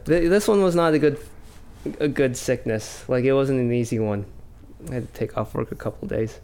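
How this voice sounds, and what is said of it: Croaky, sick-sounding voice. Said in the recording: “I'm still feeling run down. You can probably hear it in my voice. It's all croaky.”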